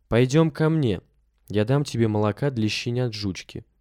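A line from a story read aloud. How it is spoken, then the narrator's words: Plain. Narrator (Russian): сказал он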